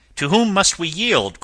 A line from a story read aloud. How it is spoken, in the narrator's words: cried Tom Smith